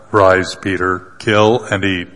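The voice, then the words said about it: Deep, dark voice. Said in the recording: “he always sounds deep and dark”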